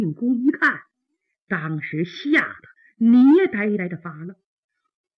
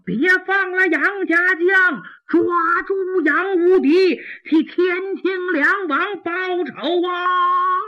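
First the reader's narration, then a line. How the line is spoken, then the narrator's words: Soldiers shouting repeatedly. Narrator (Chinese): 辽国兵将，不住的高喊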